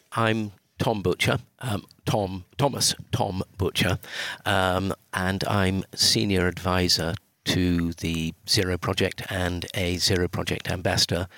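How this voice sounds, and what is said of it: British accent. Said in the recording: “you can hear I've got a Brit accent”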